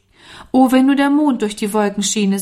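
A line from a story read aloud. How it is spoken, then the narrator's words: Sighing. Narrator (German): seufzte Norman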